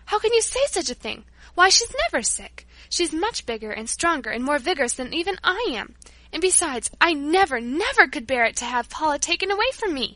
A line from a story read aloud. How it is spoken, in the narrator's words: I cried